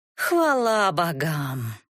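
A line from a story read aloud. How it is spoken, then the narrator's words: Irreverent, through gritted teeth. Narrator (Russian): далеким от благочестия тоном процедила Катисса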